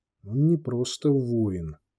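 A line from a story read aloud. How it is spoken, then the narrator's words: Barely audible reply. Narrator (Russian): едва слышно откликнулся Захар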